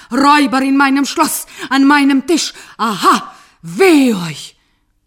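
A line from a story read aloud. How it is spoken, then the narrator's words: Loud blustering. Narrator (German): der Zauberer polterte und lärmte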